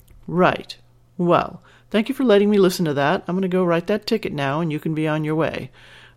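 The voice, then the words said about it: Disinterested police officer voice. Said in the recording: “in my best disinterested cop voice”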